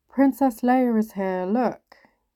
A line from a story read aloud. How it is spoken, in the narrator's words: Kev's voice boomed out